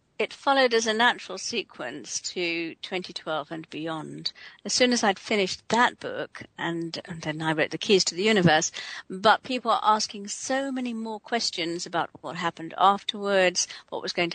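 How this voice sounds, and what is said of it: English accent. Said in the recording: “as you might hear from her accent, ... is calling in to us from Bournemouth, England”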